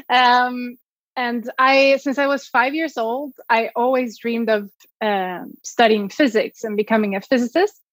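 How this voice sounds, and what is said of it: Swedish accent in English. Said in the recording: “I'm originally from Sweden. You might hear my accent.”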